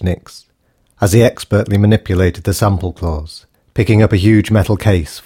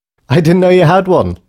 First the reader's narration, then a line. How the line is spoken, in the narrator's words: laughed Patty